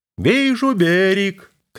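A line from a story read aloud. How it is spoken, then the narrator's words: Shout. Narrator (Russian): крикнул боцман Мат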